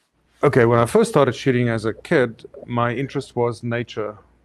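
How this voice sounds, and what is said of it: South African accent. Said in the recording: “I love the accent. ... South Africa”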